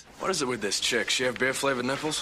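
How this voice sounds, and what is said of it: Funny Australian accent. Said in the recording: “he says it in a funny Australian accent”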